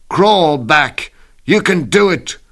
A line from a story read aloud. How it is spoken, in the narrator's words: My friends shout